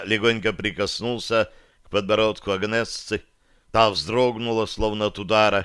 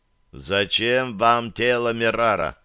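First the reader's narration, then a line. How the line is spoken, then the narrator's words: Much ruder repetition. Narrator (Russian): На этот раз намного более грубо повторил я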